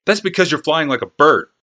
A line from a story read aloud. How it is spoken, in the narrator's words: snapped Urza